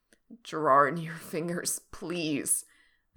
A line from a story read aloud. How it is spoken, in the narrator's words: Frank moans